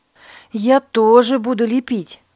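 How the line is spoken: Exclaiming. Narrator (Russian): воскликнула Катрина

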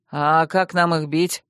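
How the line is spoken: Grumbling. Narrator (Russian): проворчал один из магов

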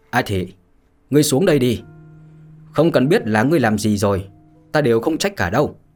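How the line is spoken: Loud laugh, raised voice. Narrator (Vietnamese): cười lớn, rồi chợt dương giọng mà nói

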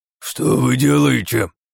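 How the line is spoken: Commander's hiss. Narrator (Russian): прошипел командир

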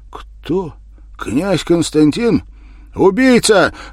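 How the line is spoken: Furious shout. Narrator (Russian): выкрикнул он бешено

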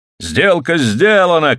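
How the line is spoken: Group shouting. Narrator (Russian): кричали они

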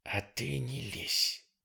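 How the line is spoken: Hissed. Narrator (Russian): прошипела Джулс

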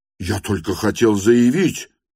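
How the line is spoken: Shouted in burning shame. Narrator (Russian): прокричал он весь горя от стыда

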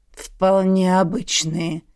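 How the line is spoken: Gruff mutter. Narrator (Russian): буркнул Борис Михайлович

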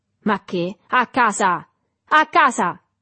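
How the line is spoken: Infatuated man shouting. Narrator (Italian): gridò l'uomo infatuato

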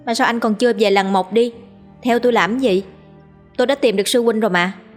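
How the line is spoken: Icy cold. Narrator (Vietnamese): Cô buông ra một câu lạnh lùng băng giá

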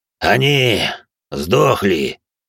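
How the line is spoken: Low menacing voice. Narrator (Russian): Низким пугающим голосом откликнулся пожиратель костей

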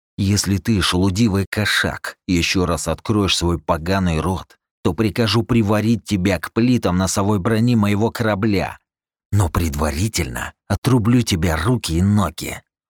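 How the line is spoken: Hissed. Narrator (Russian): прошипел я

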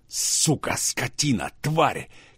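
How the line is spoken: Hissing, cursing like steam engine. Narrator (Russian): Кирилл ругался, шипел, как паровоз

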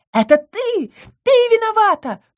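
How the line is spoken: Sharp accusing cry. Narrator (Russian): вскрикнула Камила

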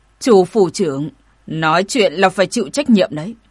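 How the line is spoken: Cold reminder. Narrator (Vietnamese): Hoàng lão lạnh lùng nhắc

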